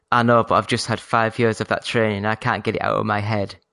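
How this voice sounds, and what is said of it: Fake posh voice over Yorkshire accent. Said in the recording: “I put on a fake posh voice... I'm from Yorkshire. It's as posh as I get”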